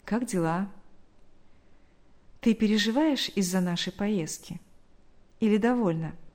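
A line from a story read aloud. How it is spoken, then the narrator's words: Tender question. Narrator (Russian): нежно спросил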